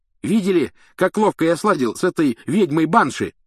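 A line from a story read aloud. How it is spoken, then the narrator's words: Shouting. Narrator (Russian): кричал Симус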